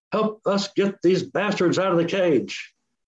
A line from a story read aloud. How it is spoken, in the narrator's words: yelled